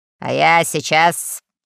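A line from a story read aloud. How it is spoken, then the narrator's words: Menacing. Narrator (Russian): сказал адмирал грозно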